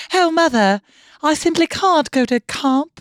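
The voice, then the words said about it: Put-on transatlantic upper-class accent. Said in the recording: “I'm fucking obsessed with transatlantic ... the one in New York talks like this”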